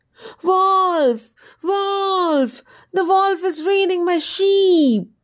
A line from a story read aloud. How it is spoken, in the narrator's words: the shepherd let out a hue and cry and shouted at the top of his voice